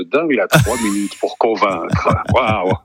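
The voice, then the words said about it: Deep booming announcer voice. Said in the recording (French): “avec la grosse voix ... la grosse voix ... on aurait dit un animateur d'énergie des années 80”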